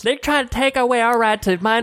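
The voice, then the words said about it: Put-on Southern US accent. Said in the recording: “you do an excellent job with the accent ... And they sound like this. ... That's what that accent is. ... non-Southern folk”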